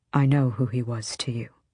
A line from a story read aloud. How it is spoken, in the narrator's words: Rowan said softly